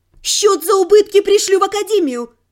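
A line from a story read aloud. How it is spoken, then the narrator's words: Shout. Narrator (Russian): крикнула я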